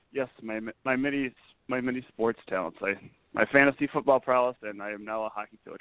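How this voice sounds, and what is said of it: Slightly hoarse, weaker voice. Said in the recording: “my voice doesn't have its normal awesome power ... I'm yelling across the ice from the bench ... I sound a little hoarse”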